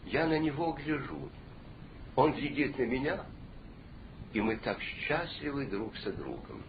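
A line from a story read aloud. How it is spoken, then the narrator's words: Old man's quiet reply. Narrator (Russian): старик тихо ему ответил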